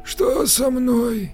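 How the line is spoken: Hoarse breathy voice. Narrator (Russian): сипло выдохнул он

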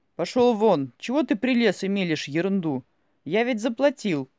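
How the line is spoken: Shouting. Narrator (Russian): крикнул Павел Николаевич

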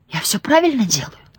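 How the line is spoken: Uncertain whispered question. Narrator (Russian): Шепотом спросила Максина, не зная, верный ли она выбрала ритм

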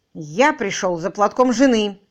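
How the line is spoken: Gloomy and very loud. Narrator (Russian): хмуро, но очень громко сообщил Тим Мэдисон

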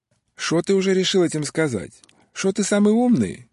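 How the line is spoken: Cheerful Odessa-accented reply. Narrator (Russian): весело откликнулся человек на одесском русском

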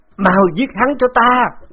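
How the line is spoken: Frantic wounded scream. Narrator (Vietnamese): Hồ Diên Kim cuối cùng không kìm nén nổi phun ra một bụm máu, ngã bệt xuống đất, điên cuồng hét lên bằng tiếng khiết đan

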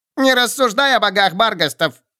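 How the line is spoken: Thin squeaky voice. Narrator (Russian): пропищал тонкий голосок

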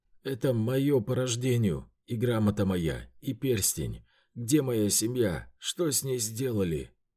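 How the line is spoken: Hoarse, accented reply. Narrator (Russian): ответил Тищенков на сносном тюркском, не узнавая свой голос, ставший сиплым от аркана Сюнсуса

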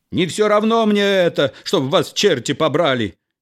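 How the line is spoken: Hysterical shout. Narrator (Russian): Истерически закричал хозяин

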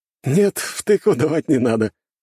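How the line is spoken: Chuckling man. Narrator (Russian): хохотнул статный блондин

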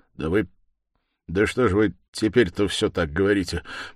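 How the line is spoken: Distracted mumble. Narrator (Russian): пробормотал, наконец, Раскольников

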